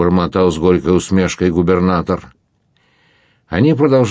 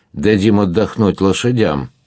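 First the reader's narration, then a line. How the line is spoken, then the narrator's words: Gloomy statement. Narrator (Russian): мрачно сказал губернатор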